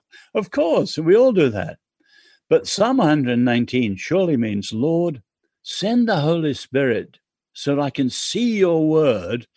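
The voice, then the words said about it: English accent. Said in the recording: “I'm English. ... I like your accent. I want to read it Englishly.”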